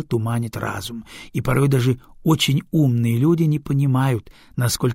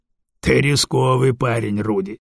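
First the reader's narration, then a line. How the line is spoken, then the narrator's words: Wry snort. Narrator (Russian): хмыкнул Дагомар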